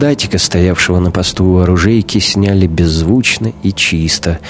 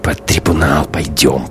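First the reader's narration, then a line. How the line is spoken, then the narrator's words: Hissed. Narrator (Russian): прошипел Шибанов Гумилеву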